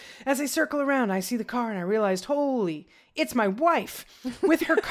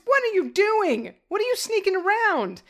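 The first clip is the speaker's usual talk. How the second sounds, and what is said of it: Accusatory yelling voice. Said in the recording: “she yells in an accusatory voice,”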